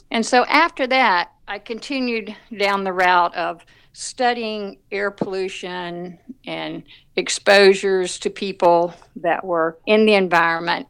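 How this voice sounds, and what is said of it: Southern US accent. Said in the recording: “you can tell from my accent that I'm from the South”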